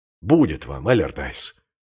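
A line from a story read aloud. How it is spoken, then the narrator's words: Angry exclamation. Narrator (Russian): сердито воскликнул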